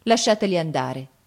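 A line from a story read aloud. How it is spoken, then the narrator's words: Cold. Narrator (Italian): disse Gianni freddamente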